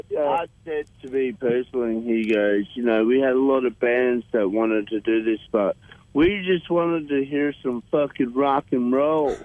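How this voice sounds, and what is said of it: Imitates another person's voice. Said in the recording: “Sounded like Max as well. ... that's a good impression.”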